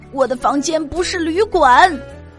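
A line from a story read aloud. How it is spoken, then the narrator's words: Shouting. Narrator (Chinese): 马修大叫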